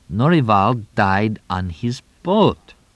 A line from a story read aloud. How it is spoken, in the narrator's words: Tonino spoke slowly, carefully